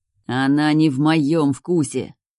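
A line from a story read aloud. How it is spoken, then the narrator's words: Through gritted teeth. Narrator (Russian): сквозь зубы цежу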